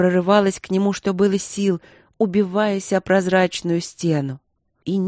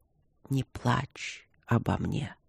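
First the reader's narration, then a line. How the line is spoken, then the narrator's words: Weak dying whisper. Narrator (Russian): обескровленными губами прошептал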